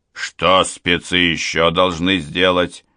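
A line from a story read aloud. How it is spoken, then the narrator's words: General's gloomy question. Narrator (Russian): хмурым тоном уточнил генерал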